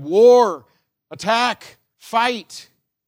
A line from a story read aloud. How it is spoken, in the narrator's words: A zealot would have cried